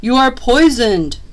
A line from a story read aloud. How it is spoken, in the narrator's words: cried Claus